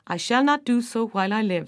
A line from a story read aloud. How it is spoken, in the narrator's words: said Cormac